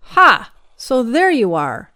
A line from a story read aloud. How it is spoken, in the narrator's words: exclaimed